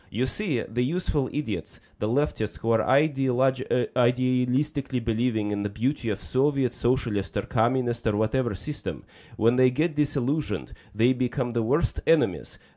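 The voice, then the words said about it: Put-on Russian accent. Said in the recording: “I'm going to do my best Russian accent, which comes naturally to me.”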